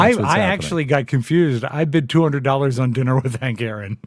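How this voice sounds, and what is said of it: Usual voice. Nothing is said of it.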